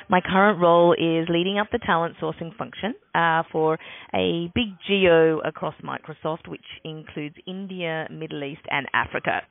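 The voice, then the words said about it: Australian accent. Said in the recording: “as you can tell by the accent, Australian”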